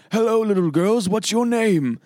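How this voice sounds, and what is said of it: Bad British-sounding imitation of another voice. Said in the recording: “bad impersonation of Daniel Day-Lewis and There Will Be Blood... sounds British, too.”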